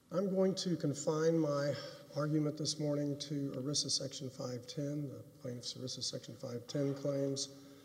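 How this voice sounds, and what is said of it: Strained, impaired voice. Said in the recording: “I apologize for my voice. I'm just having some issues with it right now.”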